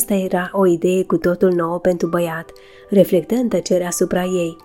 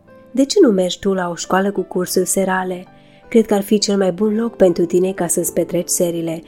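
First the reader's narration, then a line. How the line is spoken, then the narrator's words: Plain. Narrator (Romanian): spuse domnul Scott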